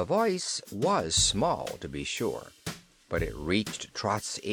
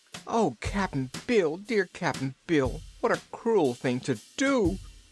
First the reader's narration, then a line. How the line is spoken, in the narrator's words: she sobbed